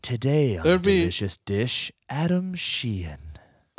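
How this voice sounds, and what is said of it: Smooth public-radio announcer voice. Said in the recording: “saying your name with my NPR voice... It's a very NPR name.”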